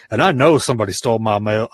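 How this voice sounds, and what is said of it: Put-on redneck accent. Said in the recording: “I sound like a redneck.”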